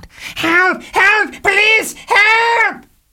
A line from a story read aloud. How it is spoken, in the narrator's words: A voice in Spade's living room screamed